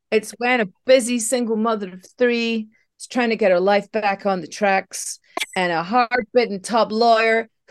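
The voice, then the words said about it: Put-on American accent. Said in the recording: “I don't know why I'm doing an American accent for this.”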